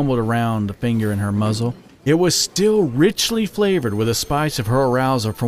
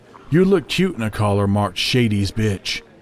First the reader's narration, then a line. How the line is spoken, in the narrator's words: he chuckled darkly